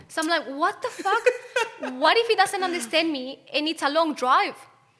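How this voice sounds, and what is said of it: Strong accent. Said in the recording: “the fucking accent, it's like so strong”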